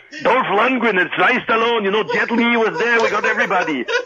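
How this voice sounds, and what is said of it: Arnold impression accent. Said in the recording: “hard to keep accent with Arnold on the phone”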